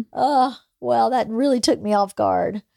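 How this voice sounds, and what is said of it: Emotional, choked-up voice. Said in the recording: “Sorry, I got emotional”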